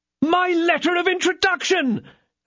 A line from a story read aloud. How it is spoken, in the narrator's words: cried D'Artagnan